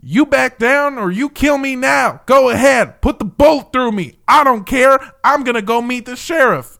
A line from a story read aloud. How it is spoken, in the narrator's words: he refused, yelling at the troopers